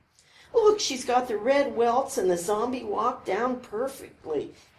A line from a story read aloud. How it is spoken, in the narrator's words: Carol was laughing